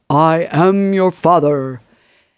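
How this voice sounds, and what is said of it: Darth Vader impression. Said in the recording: “I'll try to do my best impression”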